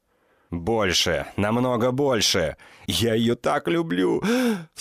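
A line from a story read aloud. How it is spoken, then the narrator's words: Sobbing. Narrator (Russian): Всхлипываю я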